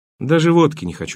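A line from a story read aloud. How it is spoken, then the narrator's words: Plain. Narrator (Russian): ответил я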